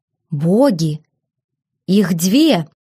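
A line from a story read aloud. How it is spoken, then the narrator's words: Exclaiming. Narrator (Russian): воскликнул Терион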